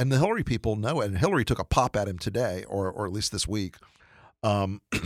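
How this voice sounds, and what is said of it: Usual voice. Nothing is said of it.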